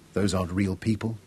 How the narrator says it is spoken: Tara said

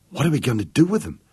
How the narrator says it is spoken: Vicky asked, breathlessly

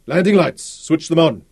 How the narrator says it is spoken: Roland shouted in the rackety cabin

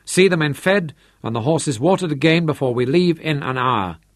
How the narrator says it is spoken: called harshly

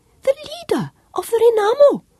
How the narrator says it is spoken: Matatu told him happily

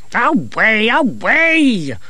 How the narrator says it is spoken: shouted the abbot, and Masklin saw that he was trembling

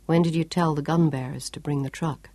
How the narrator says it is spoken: her father asked softly

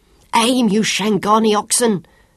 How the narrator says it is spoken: Sean bellowed at them

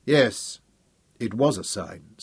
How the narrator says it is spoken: said Hal, and his voice was strong and serene once again

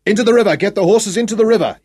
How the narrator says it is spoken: he roared above the murderous crackle, the shrill fluting whine of ricochets, and the continuous slapping of bullets into earth and flesh

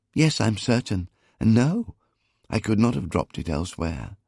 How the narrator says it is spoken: assured, just as earnestly

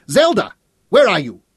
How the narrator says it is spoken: she shouted again

